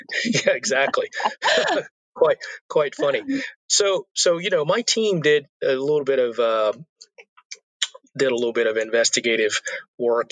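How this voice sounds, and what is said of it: Hoarse, failing voice. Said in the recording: “Happen to be losing my voice here.”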